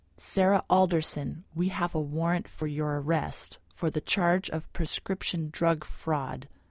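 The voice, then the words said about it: Flat, emotionless voice. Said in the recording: “in that same flat voice”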